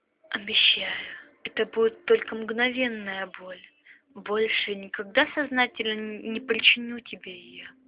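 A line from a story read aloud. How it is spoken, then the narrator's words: Whispered in ear. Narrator (Russian): шептал он ей на ушко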